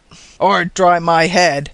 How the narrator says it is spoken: growled Mr

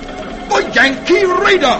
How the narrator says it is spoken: the English sea captain recognizes John Paul Jones's famous ship and exclaims

